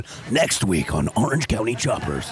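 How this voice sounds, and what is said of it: Transformers-style announcer voice. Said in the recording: “That's a great Transformers voice you got there.”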